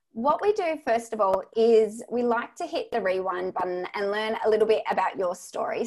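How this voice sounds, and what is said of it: Australian accent. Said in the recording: “sounds so much better when you say it versus when I write it with your Australian accent.”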